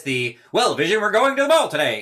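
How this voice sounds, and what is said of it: Old-fashioned mid-Atlantic radio accent. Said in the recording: “that American, that Pan-American accent that didn't exist ... that radio accent that doesn't actually exist”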